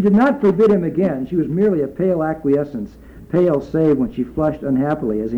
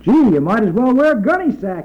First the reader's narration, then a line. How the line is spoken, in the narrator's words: roared